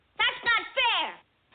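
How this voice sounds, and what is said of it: Raised, loud protesting voice. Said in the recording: “Don't raise your voice to me.”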